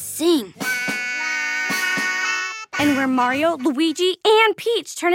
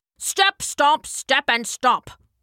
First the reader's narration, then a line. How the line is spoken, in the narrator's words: grumbled the feet